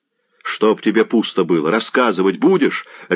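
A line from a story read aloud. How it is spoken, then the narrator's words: Barked. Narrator (Russian): рявкнул Заглоба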